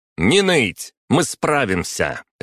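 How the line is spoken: Barked. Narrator (Russian): рявкнула Лебедева

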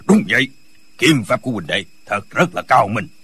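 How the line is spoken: Smiling, old man. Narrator (Vietnamese): Lão mỉm cười nói

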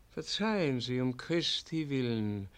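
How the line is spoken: Quiet reply. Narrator (German): erwiderte leise Jeronim

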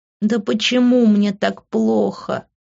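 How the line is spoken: Whimpering. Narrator (Russian): проскулила я

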